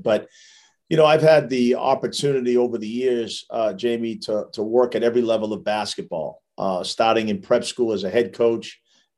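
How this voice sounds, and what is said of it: Strong East Coast Massachusetts accent. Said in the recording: “with my accent, you probably could tell I'm from Massachusetts. I got that strong East Coast Massachusetts accent.”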